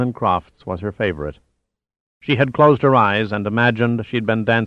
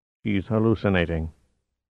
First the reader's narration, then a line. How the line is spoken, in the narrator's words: uncomprehendingly and muttered